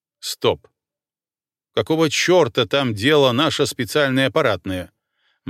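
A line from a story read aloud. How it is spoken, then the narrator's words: Gloomy question. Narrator (Russian): мрачно спросил генерал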